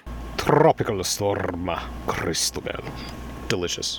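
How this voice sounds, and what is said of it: Heavily rolled R's. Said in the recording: “he could roll the R's like a serious motherfucker”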